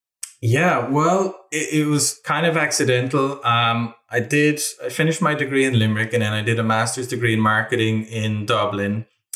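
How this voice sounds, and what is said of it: Irish accent. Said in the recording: “he liked my Irish accent ... you gotta lean into the Irish accent whenever you can, mate”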